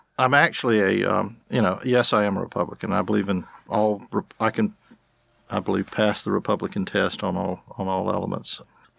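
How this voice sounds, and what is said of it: Slight southern twang. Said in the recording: “a bit of a southern twang”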